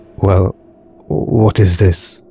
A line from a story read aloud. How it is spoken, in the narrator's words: asked Alex quietly